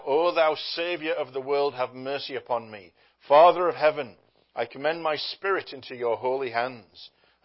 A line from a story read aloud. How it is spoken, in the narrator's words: three times he called out